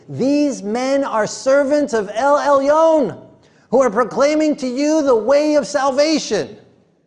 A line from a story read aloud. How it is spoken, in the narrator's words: she kept shouting